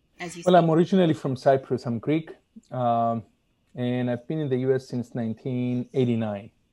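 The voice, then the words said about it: Foreign accent. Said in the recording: “they're trying to place the accent as we speak”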